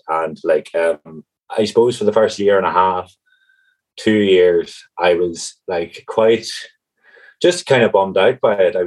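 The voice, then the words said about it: Tyrone accent, not Cork. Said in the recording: “I obviously can tell I'm not originally from Cork, perhaps my accent ... is most definitely not a Cork accent ... Originally from County Tyrone”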